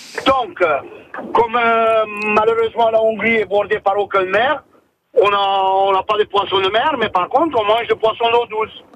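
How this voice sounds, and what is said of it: Foreign accent in French. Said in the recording (French): “Quel bel accent.”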